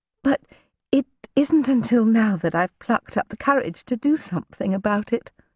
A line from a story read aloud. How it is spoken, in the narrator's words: she said, her voice soft as a spring night